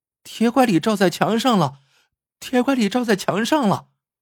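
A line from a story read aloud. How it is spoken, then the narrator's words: Children shouting. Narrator (Chinese): 孩子们在花园中叫了起来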